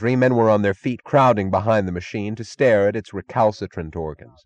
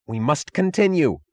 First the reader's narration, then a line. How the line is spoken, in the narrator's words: cried Taggart